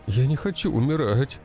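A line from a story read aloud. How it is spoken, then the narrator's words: Sobbing. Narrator (Russian): Разрыдался он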